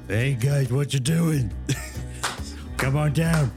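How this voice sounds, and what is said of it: Put-on Boston accent, deeper voice. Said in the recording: “Gum in a Boston accent ... Did he make his voice deeper? ... Bostonian is just lower guttural tones”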